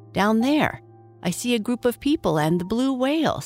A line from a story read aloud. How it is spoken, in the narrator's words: said excitedly